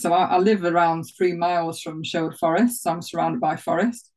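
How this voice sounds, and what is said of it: Nottinghamshire northern English accent. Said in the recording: “I'm from more the north of England ... my knots accent”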